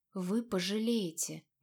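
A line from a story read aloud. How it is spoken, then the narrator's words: Quiet. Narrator (Russian): сестра Эвины все так же тихо произнесла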